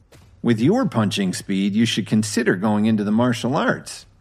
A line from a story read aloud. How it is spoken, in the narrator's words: Kevin said sarcastically